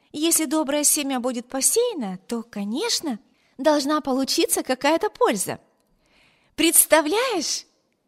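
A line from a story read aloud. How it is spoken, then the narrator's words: Cheerful continuation. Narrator (Russian): весело продолжала она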